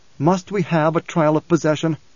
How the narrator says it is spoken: Leto said, and there was pleading in his voice

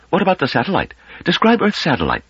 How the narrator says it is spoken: said Pellerat sharply

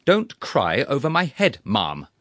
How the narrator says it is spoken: I repeated, more irritably than before

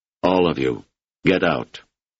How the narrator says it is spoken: Namarty said huskily

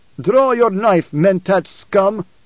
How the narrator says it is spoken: Stilgar roared

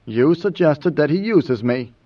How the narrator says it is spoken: Mineo said

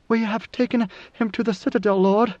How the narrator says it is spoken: A guard Bashar came racing across the plaza to his side, where she reported through panting breaths

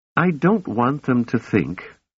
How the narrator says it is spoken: she said

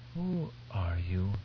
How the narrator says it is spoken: Duncan whispered

